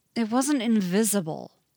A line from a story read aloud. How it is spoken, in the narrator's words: Len growls